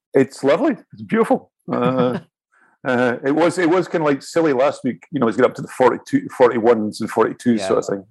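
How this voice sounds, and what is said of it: Scottish accent. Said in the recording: “you don't sound like a Parisian to me ... I'm Scottish”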